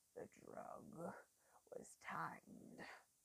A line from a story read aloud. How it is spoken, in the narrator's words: he rumbled